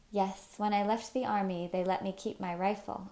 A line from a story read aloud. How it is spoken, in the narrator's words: Uncle said